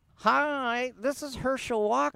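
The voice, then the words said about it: High-pitched squealing Herschel Walker impression. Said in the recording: “Oh, the high voice Herschel Walker. ... High pitched voice. ... Kind of squealing.”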